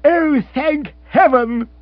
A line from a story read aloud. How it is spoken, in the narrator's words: cried Rory